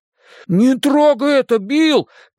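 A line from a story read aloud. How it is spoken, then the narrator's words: Shout. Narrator (Russian): крикнул Бен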